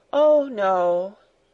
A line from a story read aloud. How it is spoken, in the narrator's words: replied Heidi, sighing